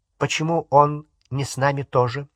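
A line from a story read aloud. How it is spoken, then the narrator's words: Plain. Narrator (Russian): спросил Дадли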